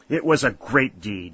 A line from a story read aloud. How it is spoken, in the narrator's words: exclaimed Colonel Kenton